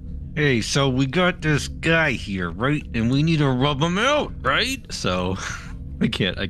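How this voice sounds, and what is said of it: Put-on New York gangster accent. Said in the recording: “you have to do it in a New York gangster accent”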